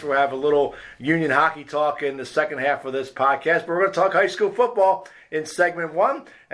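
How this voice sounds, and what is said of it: Husky, hoarse, sick-sounding voice. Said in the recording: “my voice is kind of a little shot right now, battling a cold ... the husky dulcet tones of sickness”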